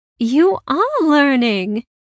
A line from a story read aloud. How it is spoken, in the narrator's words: she said happily